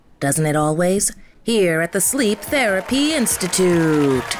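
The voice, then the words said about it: Game show host voice. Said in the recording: “My game show host impersonation”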